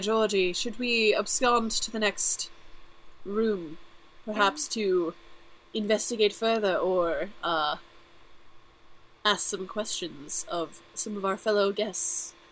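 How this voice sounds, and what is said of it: Pompous put-on British accent. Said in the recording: “I don't know why I'm becoming more British. ... Accent. ... I started as just like regular pompous asshole, and like it slowly devolved into like a British supervillain.”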